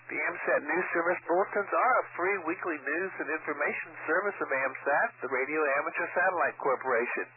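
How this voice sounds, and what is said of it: Sick, congested voice. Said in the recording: “as y'all can probably tell from my voice, I've picked up the wife's cold ... So you just hope the voice hangs in there.”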